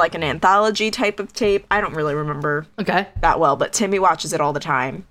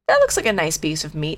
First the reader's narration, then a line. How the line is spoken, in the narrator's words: she said